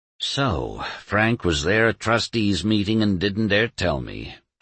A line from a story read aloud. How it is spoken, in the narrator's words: Doremus sighed